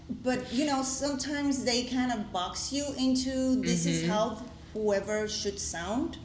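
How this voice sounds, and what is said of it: Speaks English with an accent. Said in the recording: “as you can hear, I have an accent.”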